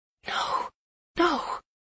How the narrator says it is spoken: I whisper

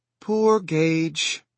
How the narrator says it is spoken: Ellie had said again, fetching another sigh

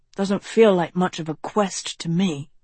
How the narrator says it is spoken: Tedros murmured

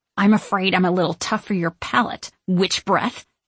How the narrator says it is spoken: I growl

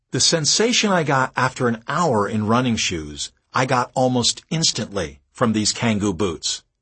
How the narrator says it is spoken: Ted says

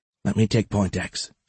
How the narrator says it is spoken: she whispered over the comms

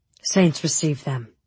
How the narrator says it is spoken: Sturmhan murmured

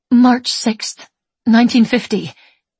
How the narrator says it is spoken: she says, her voice shaky

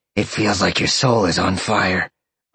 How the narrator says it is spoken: Roxy grunted, lifting him up

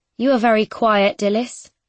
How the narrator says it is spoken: she says

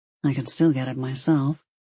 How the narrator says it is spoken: he murmured

